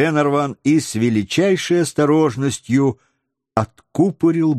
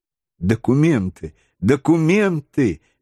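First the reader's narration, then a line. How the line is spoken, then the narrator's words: Exclaimed. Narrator (Russian): воскликнула леди Эллен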